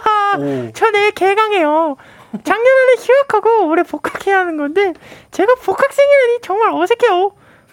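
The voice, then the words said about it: SpongeBob cartoon character voice. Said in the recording (Korean): “스폰지밥 목소리로”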